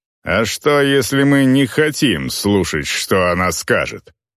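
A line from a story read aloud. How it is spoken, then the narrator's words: Female growl. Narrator (Russian): прорычала орка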